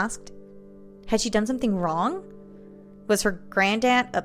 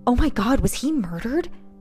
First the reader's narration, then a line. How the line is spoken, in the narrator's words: She asked in a hushed but horrified tone